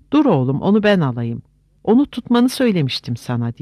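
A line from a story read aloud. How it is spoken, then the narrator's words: Shouted. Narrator (Turkish): diye bağırdı Gandalf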